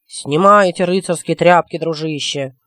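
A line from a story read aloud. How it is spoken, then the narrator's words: Booming drone. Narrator (Russian): прогудел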